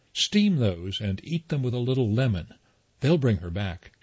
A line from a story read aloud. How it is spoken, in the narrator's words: she says